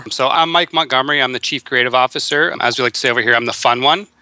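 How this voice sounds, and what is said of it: Canadian accent. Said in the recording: “I'm digging this whole Canadian accent. Like, I'm really digging it.”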